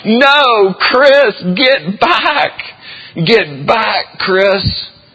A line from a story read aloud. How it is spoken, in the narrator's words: I screamed from the dugout